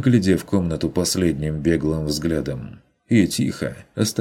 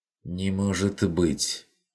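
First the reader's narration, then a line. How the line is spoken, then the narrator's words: Barely audible, bewildered. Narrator (Russian): Чуть слышно, растерянно проговорил Бруно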